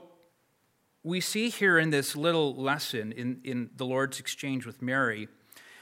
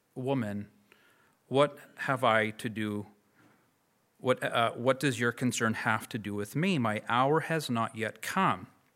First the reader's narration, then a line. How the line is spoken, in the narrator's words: he turns to Mary and kindly says